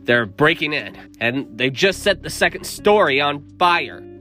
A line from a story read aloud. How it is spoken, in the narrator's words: Lucas bellows